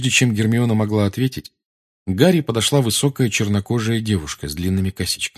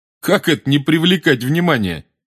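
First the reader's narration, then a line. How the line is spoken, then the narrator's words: Laughing. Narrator (Russian): засмеялся Рон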